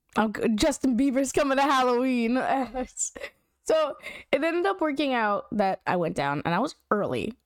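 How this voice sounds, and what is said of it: Strained sore voice, pausing for breaths. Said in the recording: “I'm pausing in between some breaths here because you can see it. You can hear it in my voice. It hurts to speak. So need some warm liquids ... I'm gonna be sniffling”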